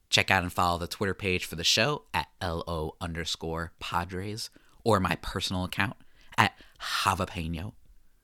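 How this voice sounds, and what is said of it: Joker character voice. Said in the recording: “doing my Joker impersonation”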